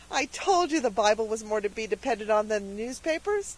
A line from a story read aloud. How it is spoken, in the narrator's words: said Cecily triumphantly